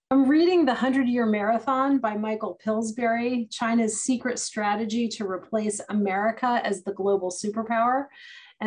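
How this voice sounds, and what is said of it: Australian accent. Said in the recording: “in his very quirky Australian way ... a wonderful Australian accent”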